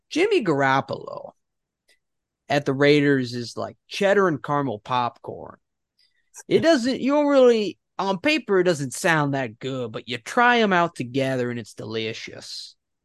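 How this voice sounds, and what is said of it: Imitates another person's voice. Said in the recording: “I'm gonna do my Colin Coward impression. ... That's pretty good. That was pretty good. ... That's like something he would say.”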